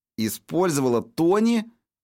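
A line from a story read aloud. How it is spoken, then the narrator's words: Exclaimed. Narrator (Russian): воскликнула Пэм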